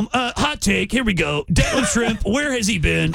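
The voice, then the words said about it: Imitates a sports radio host. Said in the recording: “I did an impression of him on our sports sister station yesterday ... Jim Rome”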